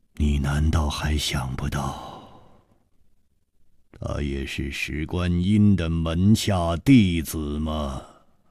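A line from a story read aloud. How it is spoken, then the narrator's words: Long sigh, deliberate words. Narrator (Chinese): 楚留香长长的叹了一口气，一字字的说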